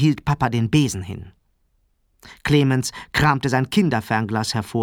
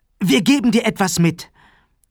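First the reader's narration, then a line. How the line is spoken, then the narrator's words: Call. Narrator (German): Sarah rief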